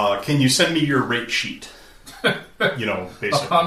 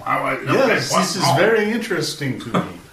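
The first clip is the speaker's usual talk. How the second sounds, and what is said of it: Put-on French accent. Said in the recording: “The French accent just drips off the email.”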